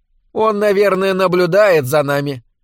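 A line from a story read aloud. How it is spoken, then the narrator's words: Cheerful suggestion. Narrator (Russian): весело предположила Лори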